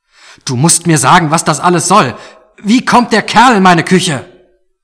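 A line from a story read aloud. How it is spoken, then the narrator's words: Shouting back. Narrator (German): riss sich los und schrie zurück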